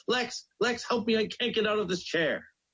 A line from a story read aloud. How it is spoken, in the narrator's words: he cried out